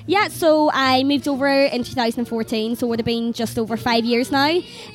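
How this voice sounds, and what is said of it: Fermanagh Irish accent. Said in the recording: “It's from Fermanagh... really on the border of Donegal”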